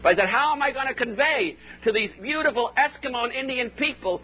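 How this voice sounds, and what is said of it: Northern US Yankee accent. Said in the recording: “I've got this peculiar Yankee accent. After 14 years in Oklahoma, I haven't been able to get rid of it.”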